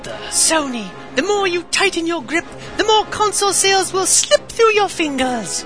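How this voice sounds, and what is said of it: Put-on British accent. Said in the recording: “How do you like my sudden British accent?”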